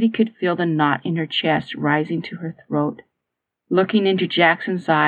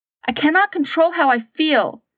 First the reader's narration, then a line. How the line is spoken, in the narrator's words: Katie rushed out angrily